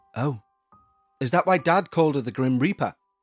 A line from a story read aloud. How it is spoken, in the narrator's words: I asked